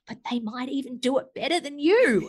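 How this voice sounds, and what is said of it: Quiet, hushed voice. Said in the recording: “in a quiet voice”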